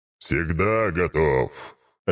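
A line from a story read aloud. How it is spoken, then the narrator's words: Growled. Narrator (Russian): рыкнул тот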